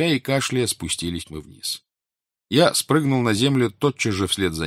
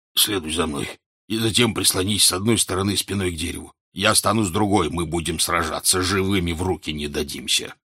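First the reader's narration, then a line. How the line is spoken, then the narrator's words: Breathless hoarse wheeze. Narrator (Russian): Король прохрипел, тоже задыхаясь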